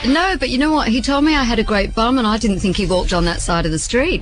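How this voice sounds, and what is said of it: Australian accent. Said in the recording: “The Australian accent is a little bit irritating.”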